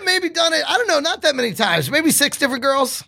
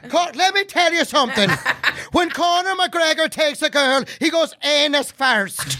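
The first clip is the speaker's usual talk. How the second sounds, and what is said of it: Irish accent Conor McGregor impression. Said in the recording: “your Irish accent? ... Does Connor like it in the butt?”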